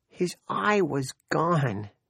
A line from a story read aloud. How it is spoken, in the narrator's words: she cried